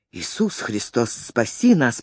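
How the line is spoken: Moan. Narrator (Russian): простонал он

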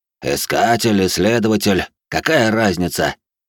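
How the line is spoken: Displeased grumble, old man. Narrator (Russian): Недовольно пробурчал старик

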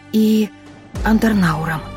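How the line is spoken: Whisper. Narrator (Russian): прошептала я

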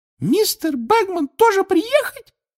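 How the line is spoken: Angry squeak. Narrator (Russian): пискнула Винки, и, к немалому удивлению Гарри с друзьями, рассердилась

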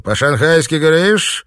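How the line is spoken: Rude sarcastic question, Shanghainese. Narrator (Russian): Китаец язвительно усмехнулся и грубо осведомился на шанхайском диалекте

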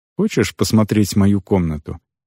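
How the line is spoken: Soft question. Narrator (Russian): мягко спросил я

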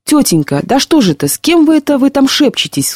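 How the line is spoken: Tearful child's cry. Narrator (Russian): вскрикнул с слезами в голосе мальчик

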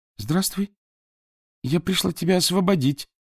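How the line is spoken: Quavering voice. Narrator (Russian): промолвила Суок дрогнувшим голосом

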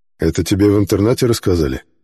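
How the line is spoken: Gloomy question. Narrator (Russian): мрачно спросил черный старатель

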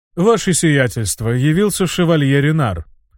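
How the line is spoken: Valet's even announcement. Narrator (Russian): ровным голосом сообщил камердинер графа

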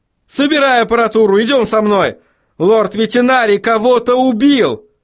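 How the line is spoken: Shout. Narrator (Russian): Крикнул Вильям

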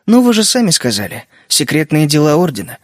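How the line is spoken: Calm retort. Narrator (Russian): спокойно парировал я

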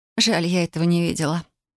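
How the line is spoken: Regretful sigh. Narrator (Russian): с сожалением вздохнула я

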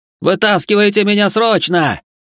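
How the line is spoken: Yelling into amulet. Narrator (Russian): заорал Бихань в амулет

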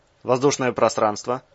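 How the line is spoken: Calm question. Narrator (Russian): спокойно уточнил Березов

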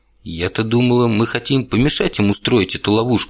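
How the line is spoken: Plain. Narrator (Russian): сказала Алиса

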